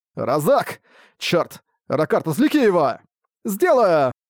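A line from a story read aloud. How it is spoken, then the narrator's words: Shouting then yelling. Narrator (Russian): крикнул вампир и заорал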